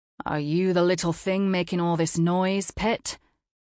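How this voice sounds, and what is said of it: Thick, heavy British accent. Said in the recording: “His British accent is thick and heavy”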